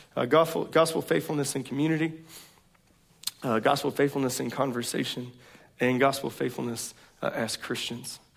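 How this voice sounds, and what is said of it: Strained, failing voice. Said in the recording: “my voice is fleeting. It's failing me.”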